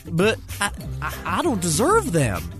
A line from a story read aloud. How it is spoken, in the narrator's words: Champ stuttered